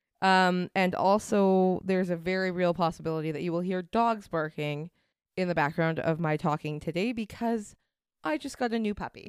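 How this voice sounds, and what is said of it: Dry, raspy voice from cold. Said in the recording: “I am coming down with a bit of a cold. I'm a little... ... A little dry. A little raspy.”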